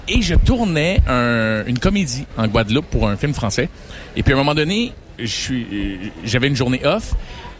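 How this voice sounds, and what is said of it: Quebec French accent. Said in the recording (French): “mon accent québécois”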